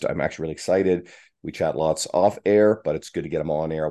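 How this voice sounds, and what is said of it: Sick, under-the-weather voice. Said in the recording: “You may hear it in my voice. I'm a little under the weather”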